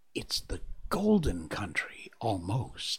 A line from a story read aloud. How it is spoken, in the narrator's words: murmured